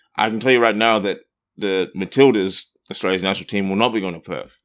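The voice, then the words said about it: Australian accent. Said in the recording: “as you may detect it from my accent, I'm not from around here. I'm from Australia”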